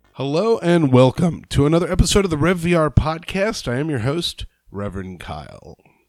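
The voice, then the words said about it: Slightly scratchy, rough voice. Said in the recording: “my voice is just a little scratchy, a little rough”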